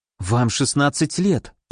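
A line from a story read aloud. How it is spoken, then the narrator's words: Mutter. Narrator (Russian): пробормотала Николь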